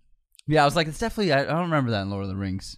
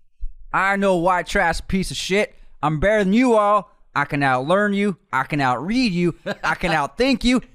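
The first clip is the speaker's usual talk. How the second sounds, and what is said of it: Put-on Southern US accent. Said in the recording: “I'm going to do an impression. I'll try Southern for this.”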